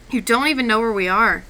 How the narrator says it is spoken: cried out

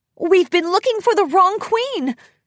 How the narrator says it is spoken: Twilight exclaimed

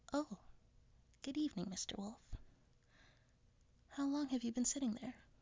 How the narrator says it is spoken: Red was startled, but sweetly replied

